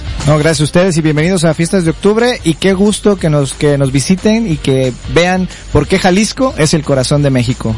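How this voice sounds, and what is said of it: Announcer-style radio voice. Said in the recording (Spanish): “Este sí tiene voz de locutor”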